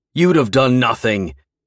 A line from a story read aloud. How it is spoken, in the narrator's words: he roared